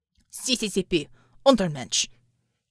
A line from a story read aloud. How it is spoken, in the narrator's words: the man barked